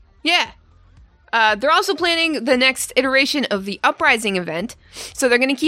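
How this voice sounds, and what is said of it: Usual voice. Nothing is said of it.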